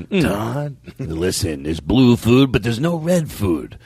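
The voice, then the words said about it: Self-described bad impression. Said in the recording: “my bad impression”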